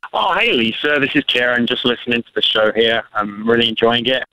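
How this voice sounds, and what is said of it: English accent. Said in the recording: “where is your accent from? ... Oh, it's from England.”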